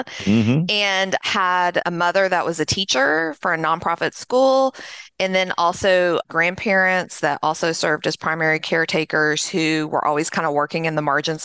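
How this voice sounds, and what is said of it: Middle Tennessee Southern accent. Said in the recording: “I grew up in Middle Tennessee, just south of Nashville, as you can probably tell from my accent”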